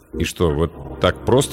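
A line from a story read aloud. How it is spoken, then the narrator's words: Uncertain. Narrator (Russian): неуверенно начал я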